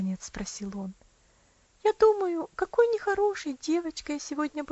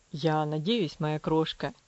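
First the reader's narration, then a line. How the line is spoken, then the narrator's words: Tender. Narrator (Russian): нежно ответил он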